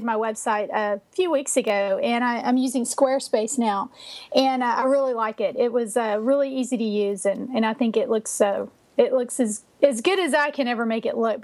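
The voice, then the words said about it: Boston accent. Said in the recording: “listeners can probably hear from your accent that you're from Boston”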